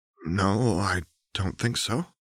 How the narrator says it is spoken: hesitantly said

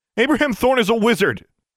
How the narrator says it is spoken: Alexandra shouted

